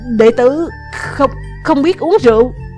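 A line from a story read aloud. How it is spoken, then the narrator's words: Stammering reply. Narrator (Vietnamese): ấp úng đáp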